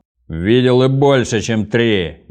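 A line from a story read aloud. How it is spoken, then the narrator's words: Impatient shout, fat man. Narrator (Russian): нетерпеливо крикнул толстяк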